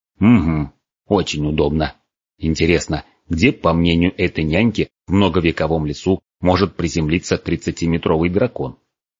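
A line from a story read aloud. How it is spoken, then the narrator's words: Grumbling storyteller. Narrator (Russian): проворчал сказочник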